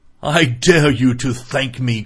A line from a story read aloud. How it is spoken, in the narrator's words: cried